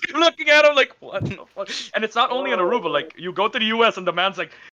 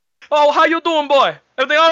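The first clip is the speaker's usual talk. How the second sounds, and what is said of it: Imitated Bush accent. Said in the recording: “that's my father's, like, legit Bush accent.”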